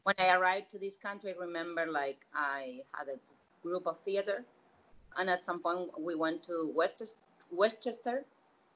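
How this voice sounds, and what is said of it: Non-native English accent. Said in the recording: “someone with my accent”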